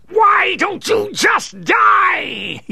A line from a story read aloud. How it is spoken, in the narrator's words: shrieked